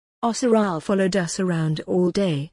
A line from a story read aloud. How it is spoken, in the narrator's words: Samantha answered